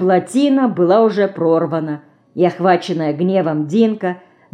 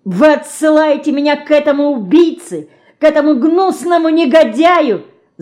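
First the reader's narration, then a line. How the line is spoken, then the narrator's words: Breathless angry, hurt scream. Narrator (Russian): задохнувшись от гнева и обиды, закричала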